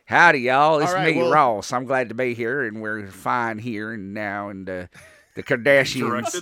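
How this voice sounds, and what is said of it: Put-on exaggerated Southern accent. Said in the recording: “I'll do it in my Ross voice, whichever accent I feel like doing that day ... as a Southerner, I take offense to that”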